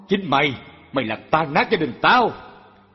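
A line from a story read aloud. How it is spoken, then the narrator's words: Husband's angry bellow. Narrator (Vietnamese): ông chồng nạt nộ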